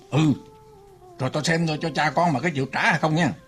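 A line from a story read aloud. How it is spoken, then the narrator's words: Angry, muttered threat. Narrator (Vietnamese): Ông kia giận dữ, lẩm bẩm dọa rằng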